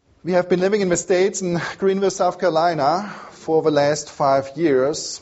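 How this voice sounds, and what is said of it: Strong German accent. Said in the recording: “I have a strong German accent”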